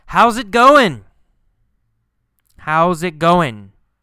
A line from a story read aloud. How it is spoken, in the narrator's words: Carlos yells